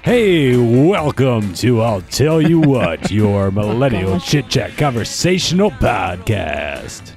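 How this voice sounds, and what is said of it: Weird radio announcer voice. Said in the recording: “That sound like a weird, ... doing ... a weird impression. ... He's auditioning for radio K-Rock station.”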